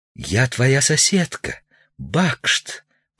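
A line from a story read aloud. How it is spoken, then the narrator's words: Whisper. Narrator (Russian): прошептала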